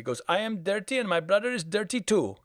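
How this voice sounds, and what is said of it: Put-on Indian accent. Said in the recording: “because of the yeah. accent, there was this joke”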